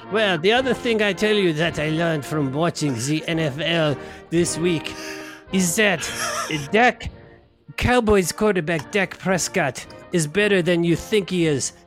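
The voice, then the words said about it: Put-on French accent. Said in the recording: “I have to do a segment in an accent ... a French accent ... you picked a French accent”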